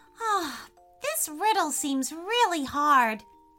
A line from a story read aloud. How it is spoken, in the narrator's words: sighed Freya